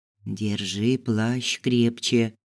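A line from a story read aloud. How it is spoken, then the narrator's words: Whisper. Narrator (Russian): шепнул Ису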